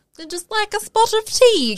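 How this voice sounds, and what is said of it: Bad put-on Cockney British accent. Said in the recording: “that British accent's way worse than our Australian accent ... Like that Cockney one.”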